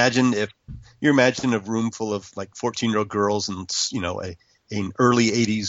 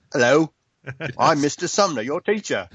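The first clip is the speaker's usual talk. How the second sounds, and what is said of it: Put-on Cockney accent. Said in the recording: “Why does he have a Cockney accent suddenly?”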